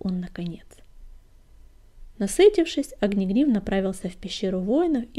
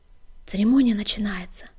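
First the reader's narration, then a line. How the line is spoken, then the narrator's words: Whispered. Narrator (Russian): шепнула она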